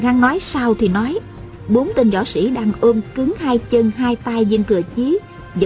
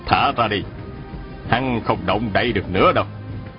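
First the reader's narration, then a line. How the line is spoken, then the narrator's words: Smiling. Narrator (Vietnamese): rồi mỉm cười bảo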